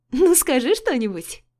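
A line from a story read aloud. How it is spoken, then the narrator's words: Carefree laughing. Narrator (Russian): Засмеялась Алина, беззаботно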